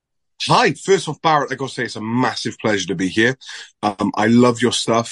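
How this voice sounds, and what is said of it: Welsh accent. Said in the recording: “I live in South Wales ... this weird accent of mine”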